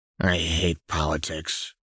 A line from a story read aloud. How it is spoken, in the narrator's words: Jinx said dryly